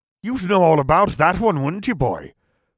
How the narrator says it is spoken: Professor Moody barked

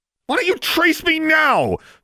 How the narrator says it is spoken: she shouted angrily

